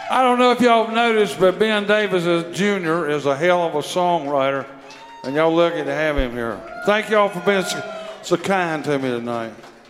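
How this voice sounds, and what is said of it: Southern drawl. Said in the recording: “you like his southern drawl ... that drawl is a whole other situation”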